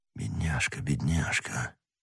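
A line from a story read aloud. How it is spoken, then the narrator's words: Hoarse whisper. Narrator (Russian): хриплым голосом шептал Атос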